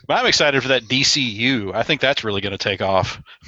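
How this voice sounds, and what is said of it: Sarcastic, mock-enthusiastic tone. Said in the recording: “you're being sarcastic”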